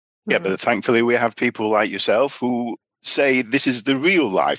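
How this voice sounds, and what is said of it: British accent. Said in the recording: “as you're British, I presume, from the accent.”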